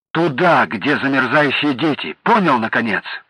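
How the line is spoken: Sharp rebuke. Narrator (Russian): прикрикнула Люба

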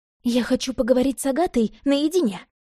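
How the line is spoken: Blurted. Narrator (Russian): выпалила Ирка

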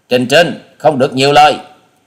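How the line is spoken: Glaring sharp rebuke. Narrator (Vietnamese): Hà Xà tiên tử trừng mắt quát

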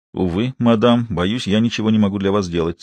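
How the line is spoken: Dry, curt. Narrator (Russian): сухо ответил Виктор

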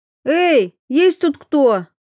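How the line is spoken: Grimacing shout. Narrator (Russian): крикнула Ксюха, морщась

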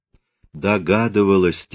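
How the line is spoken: Quiet, tearful. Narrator (Russian): тихо сказала Наталья

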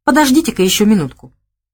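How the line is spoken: Cheerful reassurance. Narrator (Russian): бодро заверил он

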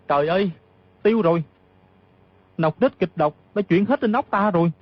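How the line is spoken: Sudden cry. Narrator (Vietnamese): Dù Thản Chi mừng rỡ vô cùng, bỗng la lên

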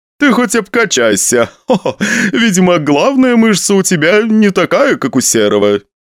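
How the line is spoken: Laughing. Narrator (Russian): посмеялся Евгений Савельевич

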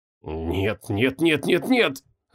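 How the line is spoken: Muttering. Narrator (Russian): забормотала Санта

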